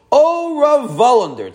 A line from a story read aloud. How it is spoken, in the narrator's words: Tzaddik cried out